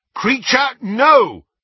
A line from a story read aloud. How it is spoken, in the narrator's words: shouted Harry